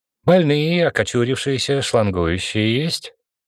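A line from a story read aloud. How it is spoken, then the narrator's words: Cheerful question. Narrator (Russian): бодро спросил он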